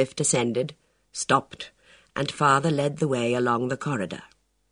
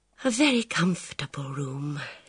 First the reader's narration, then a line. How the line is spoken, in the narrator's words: she observed, with a slight sigh